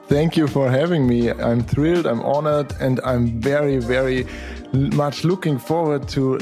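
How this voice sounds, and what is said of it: Austrian-accented English. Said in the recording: “your accent is a little bit different than my accent ... I'm from Austria, south of Germany ... this is where my accent comes from”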